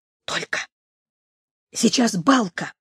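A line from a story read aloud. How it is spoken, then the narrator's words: Whisper. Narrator (Russian): Прошептал Сережка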